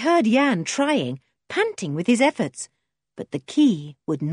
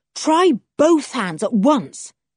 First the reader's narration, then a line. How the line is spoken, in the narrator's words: said Julian urgently